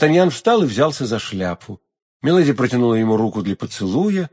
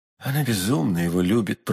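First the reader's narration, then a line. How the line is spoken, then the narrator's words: Whisper. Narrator (Russian): прошептал он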